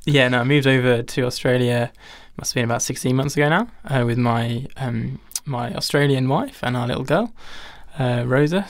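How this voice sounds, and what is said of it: English accent. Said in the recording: “As people could probably tell by my accent already, I am English.”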